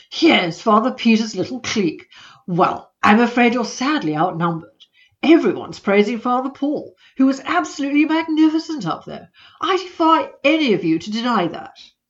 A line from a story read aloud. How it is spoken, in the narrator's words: exclaimed